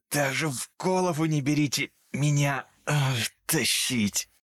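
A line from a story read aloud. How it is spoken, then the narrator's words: Hoarse. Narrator (Russian): прохрипел он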